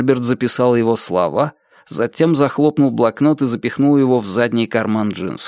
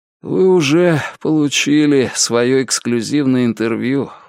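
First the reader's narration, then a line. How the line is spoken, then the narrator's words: Weary. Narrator (Russian): устало произнес он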